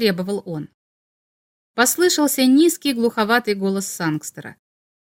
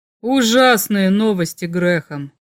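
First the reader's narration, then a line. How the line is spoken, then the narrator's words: Grim. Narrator (Russian): мрачно сказал Сангстер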